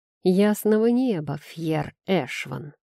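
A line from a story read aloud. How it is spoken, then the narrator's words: Female through gritted teeth. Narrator (Russian): Процедилась сквозь зубы предсказательница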